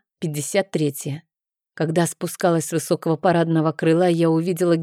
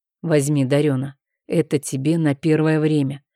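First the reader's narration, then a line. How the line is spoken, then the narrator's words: Muffled, dull voice. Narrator (Russian): произнес глухо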